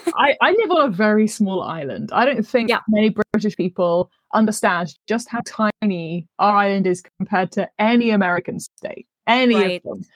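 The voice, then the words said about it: British accent. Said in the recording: “being British, as you can tell from my delightful accent”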